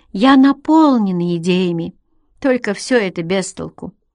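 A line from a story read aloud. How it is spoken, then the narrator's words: Slightly lazy. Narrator (Russian): проговорила она немного лениво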